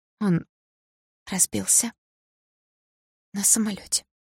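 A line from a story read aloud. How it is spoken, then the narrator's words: Hoarse tearful voice. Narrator (Russian): ответила вдруг она хриплым от слез голосом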